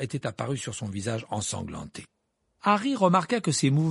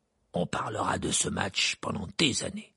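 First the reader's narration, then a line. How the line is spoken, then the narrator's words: Hoarse voice. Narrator (French): dit-il d'une voix enrouée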